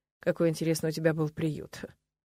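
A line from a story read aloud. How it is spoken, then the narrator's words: Muttered. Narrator (Russian): пробормотал Нолан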